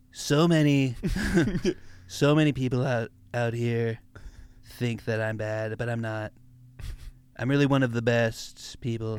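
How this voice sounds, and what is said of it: Donald Trump impression. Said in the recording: “can you do Trump since you did Biden?”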